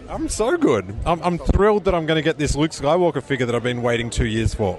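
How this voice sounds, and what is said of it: Australian accent. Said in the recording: “picks up on my accent, and it's George, who's also an Australian”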